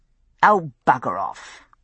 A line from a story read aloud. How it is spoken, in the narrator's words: I said crossly